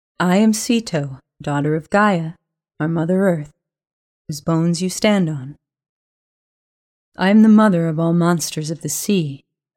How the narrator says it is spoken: the vast shape growled, in that impossibly deep voice

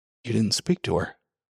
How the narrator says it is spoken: He said in a colorless voice, half as a question, half as a reproach

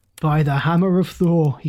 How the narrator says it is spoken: he cried

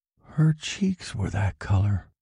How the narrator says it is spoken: Steve said, his voice low

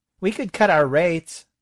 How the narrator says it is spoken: someone says

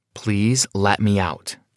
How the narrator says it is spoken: I said calmly

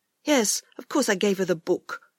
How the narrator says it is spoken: he answered crossly

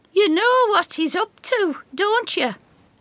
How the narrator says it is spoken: Effie asks her sharply

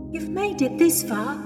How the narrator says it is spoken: Louise said, almost pleading

